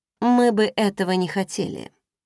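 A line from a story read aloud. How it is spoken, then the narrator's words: Dry, curt. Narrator (Russian): сухо произнесла я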